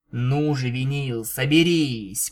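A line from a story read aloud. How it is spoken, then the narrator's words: Grumbling. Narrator (Russian): проворчала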